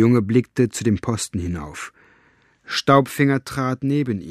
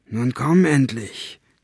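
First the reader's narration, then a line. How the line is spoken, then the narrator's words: Hissed. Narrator (German): zischte er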